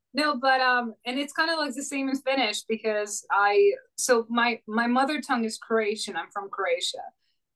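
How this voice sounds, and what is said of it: Croatian accent. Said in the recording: “when you said Croatia, like I hear the Croatian, I can hear it in your voice ... when you said that, it was like, oh yeah, she is Croatian. I can hear it now.”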